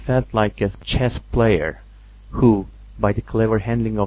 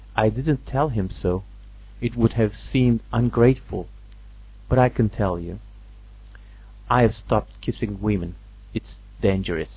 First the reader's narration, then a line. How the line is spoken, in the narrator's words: he went on quietly